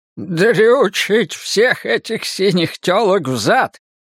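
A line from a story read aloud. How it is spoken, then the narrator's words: Toothless mumbling. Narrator (Russian): прошамкал Мартин Селен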